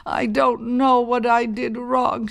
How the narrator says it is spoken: she sobbed

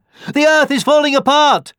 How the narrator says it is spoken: panted the deer

